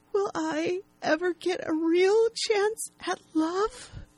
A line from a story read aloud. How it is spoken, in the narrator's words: She says tearfully